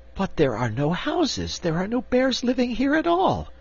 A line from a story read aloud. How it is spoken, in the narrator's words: exclaimed Cake